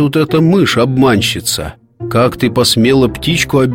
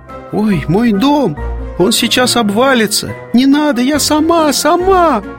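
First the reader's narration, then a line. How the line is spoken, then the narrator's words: Frightened squeak. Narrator (Russian): испуганно запищала мышка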